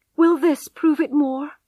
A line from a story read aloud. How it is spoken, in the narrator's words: cried Tess desperately